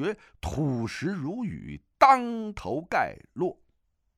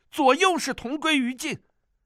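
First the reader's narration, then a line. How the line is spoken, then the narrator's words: Shouted. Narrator (Chinese): 叫道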